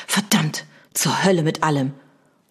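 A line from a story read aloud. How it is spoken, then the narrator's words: Hissed. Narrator (German): Lord Vegas zischte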